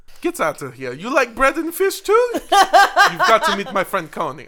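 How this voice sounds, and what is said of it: Terrible put-on accent. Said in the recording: “I don't know what this accent is. It's fucking terrible.”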